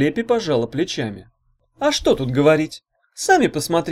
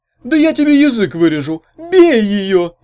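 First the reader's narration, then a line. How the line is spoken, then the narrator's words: Howl. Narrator (Russian): взвыл Чуня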